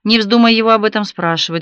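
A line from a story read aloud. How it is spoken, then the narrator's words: Curt, rude. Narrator (Russian): грубо отрезал он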